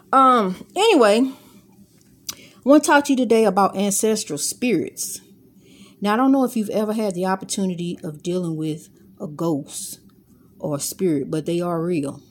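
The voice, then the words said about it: Country-sounding accent. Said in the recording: “She said I'm country, so I may sound country to you or whatever, but I'm not from the country.”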